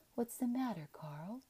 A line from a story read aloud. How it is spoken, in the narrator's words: Tiflin said sleepily